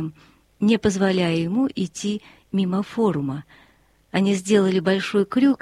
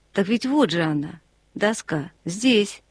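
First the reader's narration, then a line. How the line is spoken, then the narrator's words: Calm. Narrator (Russian): он сказал спокойно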